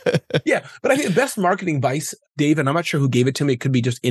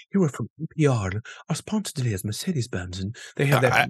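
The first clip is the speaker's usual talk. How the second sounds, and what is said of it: Mimics a public radio announcer voice. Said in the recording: “You got to get that little NPR voice. ... I don't know how they speak that way.”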